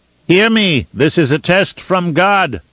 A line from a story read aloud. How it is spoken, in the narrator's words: Agitica cried to the listeners below, his voice booming into the open space